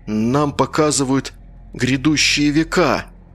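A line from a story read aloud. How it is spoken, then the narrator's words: Solemn exclamation. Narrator (Russian): воскликнул он торжественно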